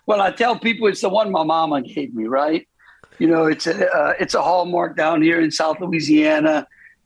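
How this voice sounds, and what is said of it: Thick Cajun accent. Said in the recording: “you had that Cajun accent coming on thick”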